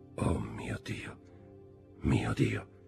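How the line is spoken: Devastated murmur. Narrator (Italian): mormorò Villefort, annientato

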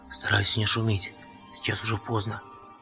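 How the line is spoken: Quiet warning. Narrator (Russian): тихо предупредил священник

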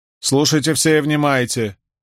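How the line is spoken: Loud woman. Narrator (Russian): громко сказала женщина

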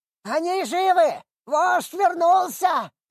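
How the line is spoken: Shrill goblin yell. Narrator (Russian): заорал кто-то из гоблинов пронзительным голосом

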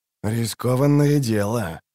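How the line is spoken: Said quietly. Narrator (Russian): тихо сказал Бонард

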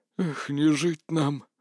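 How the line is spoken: Lifeless voice. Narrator (Russian): безжизненным голосом сказал

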